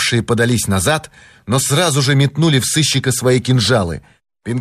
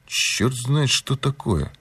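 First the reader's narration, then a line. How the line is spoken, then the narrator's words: Muttered. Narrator (Russian): буркнул Пинкертон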